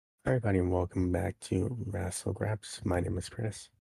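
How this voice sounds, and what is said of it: Voice affected by a cold. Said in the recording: “excuse the voice. I have a cold ... Everyone has a sore throat, a cold”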